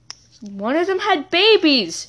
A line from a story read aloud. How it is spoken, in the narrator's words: she squealed